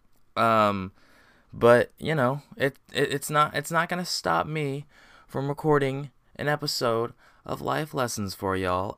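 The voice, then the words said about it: Hoarse, strained voice from sore throat. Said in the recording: “I have a sore throat... I'm losing my voice, and I have a sore throat”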